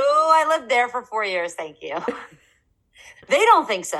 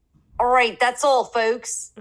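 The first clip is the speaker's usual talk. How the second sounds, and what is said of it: Philadelphia accent. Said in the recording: “Unless you're from Philly and then it's folks... That was a very good accent.”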